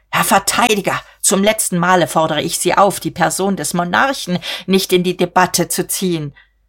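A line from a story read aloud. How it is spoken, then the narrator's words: Predatory shriek. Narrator (German): er kreischte beutegierig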